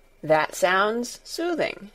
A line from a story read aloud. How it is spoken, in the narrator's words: said Dr